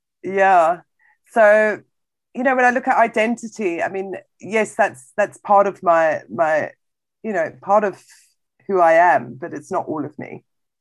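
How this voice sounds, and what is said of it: British accent. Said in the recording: “you speak with a British accent”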